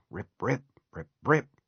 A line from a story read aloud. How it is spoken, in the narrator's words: under his breath